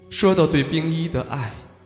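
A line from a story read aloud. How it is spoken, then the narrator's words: Sighing inner thought. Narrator (Chinese): 洛风终于长叹了一口气，心中不禁暗道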